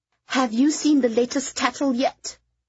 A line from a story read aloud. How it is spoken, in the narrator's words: Kitty said, her voice shaking with fury